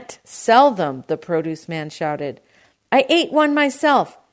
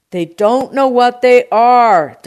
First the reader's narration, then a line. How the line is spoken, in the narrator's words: D'Agostino shouted